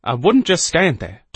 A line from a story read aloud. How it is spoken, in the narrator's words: Doss said sharply